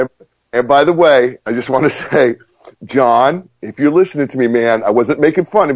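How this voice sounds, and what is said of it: Usual voice. Nothing is said of it.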